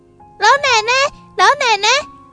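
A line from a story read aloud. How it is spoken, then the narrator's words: Calling from afar. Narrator (Chinese): 远处有人在叫唤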